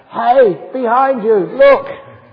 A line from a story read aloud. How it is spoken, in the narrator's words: When it got scary, and not my girlfriend, but somebody else would shout out